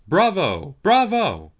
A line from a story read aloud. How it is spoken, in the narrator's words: the company shouted